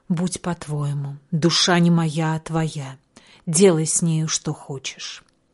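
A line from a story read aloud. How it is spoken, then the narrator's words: Quiet, shaken reply. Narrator (Russian): вздрогнув, она тихо ответила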